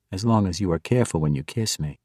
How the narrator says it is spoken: Azudana said quietly to Zack, leaning in close

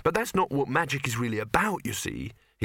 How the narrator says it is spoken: he added quickly

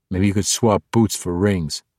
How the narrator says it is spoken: grumbled after only a few plowing steps

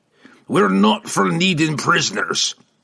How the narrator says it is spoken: growled

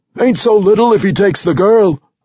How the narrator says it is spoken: another cried

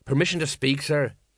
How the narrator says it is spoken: he muttered

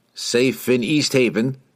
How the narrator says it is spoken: Jensen Brent replied

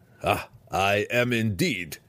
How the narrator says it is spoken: Belwar roared

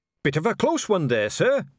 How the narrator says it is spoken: said a voice cheerfully

